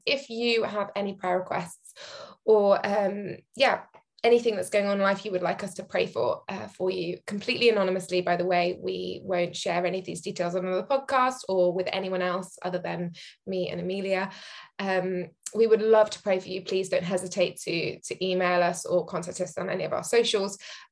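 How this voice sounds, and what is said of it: Serious, earnest tone. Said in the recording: “now I'm taking my serious voice on”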